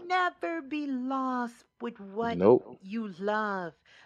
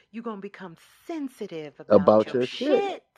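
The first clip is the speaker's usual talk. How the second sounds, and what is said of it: Imitates another person's voice. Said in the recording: “in my Erykah Badu voice”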